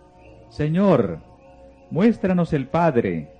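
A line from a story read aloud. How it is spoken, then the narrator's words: Exclaimed. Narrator (Spanish): exclamó Felipe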